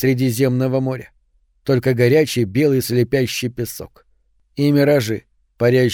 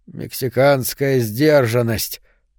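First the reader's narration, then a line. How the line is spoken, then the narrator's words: Hoarse, surprised rasp. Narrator (Russian): прохрипел Гаррисон, удивляясь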